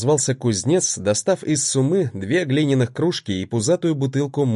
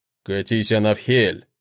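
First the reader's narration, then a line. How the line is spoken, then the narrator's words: Grumbling. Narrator (Russian): проворчал мужчина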